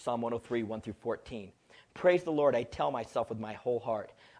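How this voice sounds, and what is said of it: Reading aloud quickly. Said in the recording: “I'll read it quickly”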